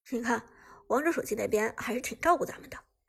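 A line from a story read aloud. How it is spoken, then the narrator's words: Faint smile. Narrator (Chinese): 苏哲淡淡一笑，对旺财道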